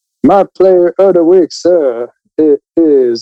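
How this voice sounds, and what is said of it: Old-time 1920s-40s radio announcer voice. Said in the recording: “1920s, 1940s box radio voice”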